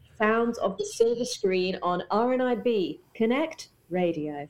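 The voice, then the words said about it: Polished radio presenter voice. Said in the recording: “That's how I sound on it. I do my radio voice.”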